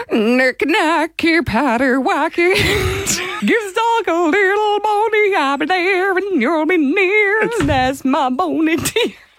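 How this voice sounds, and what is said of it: Sung imitation of another person's voice. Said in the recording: “your best Shakira impersonation,”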